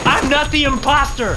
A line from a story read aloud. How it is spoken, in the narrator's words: I screamed, my rattled mind thinking that this proved it